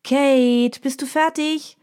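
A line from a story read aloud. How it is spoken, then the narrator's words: Calling from another room. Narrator (German): ruft Mina aus ihrem Schlafzimmer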